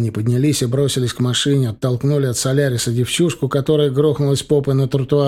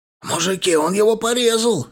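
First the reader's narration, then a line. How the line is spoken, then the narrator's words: Yelled. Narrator (Russian): заорал прыщавый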